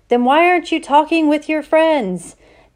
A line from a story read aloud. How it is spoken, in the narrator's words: shouted